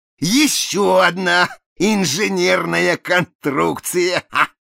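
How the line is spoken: Exclaiming, choking on laughter. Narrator (Russian): воскликнул Проспера, давясь судорожным хохотом

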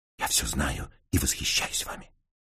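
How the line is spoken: Whisper. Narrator (Russian): шепнув

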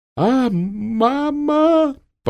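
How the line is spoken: Shameful sob. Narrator (Russian): позорно всхлипнул Тюльпанов

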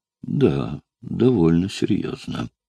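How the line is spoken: Sighing. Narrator (Russian): вздохнула она

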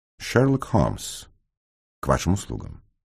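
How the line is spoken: Calm. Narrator (Russian): спокойно проговорил

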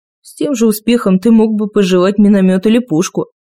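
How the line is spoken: Grumbling. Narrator (Russian): проворчал Дэйн

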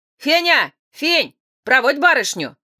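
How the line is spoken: Doorkeeper shouting. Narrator (Russian): крикнул привратник

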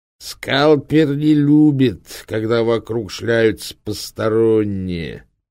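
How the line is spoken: Through gritted teeth. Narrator (Russian): процедил Тобиас Линн

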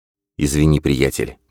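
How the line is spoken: Muttering. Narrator (Russian): пробормотал Джордан

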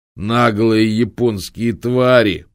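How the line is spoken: Growling. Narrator (Russian): прорычал одноногий кладбищенский сторож

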